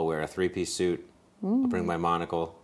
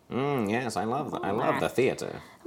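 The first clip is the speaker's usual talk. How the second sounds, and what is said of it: Put-on transatlantic accent. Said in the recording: “I'll work on my transatlantic accent.”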